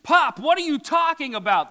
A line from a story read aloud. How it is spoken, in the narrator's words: the son screams